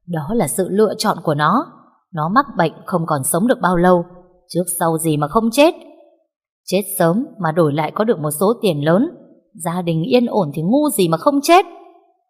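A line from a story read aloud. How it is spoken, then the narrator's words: Woman laughing loudly. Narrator (Vietnamese): bà ta bật cười lớn hơn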